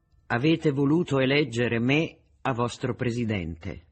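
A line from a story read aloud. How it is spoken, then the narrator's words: Plain. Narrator (Italian): disse Boca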